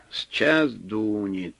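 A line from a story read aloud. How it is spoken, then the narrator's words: Said calmly, to no one. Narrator (Russian): спокойно, никому не обращаясь, сказал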